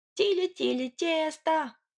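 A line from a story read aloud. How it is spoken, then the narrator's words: Girls howling behind fence. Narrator (Russian): взвыли за забором Кузькины сестрицы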